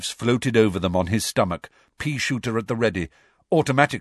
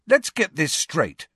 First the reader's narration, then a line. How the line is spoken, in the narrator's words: said Harry angrily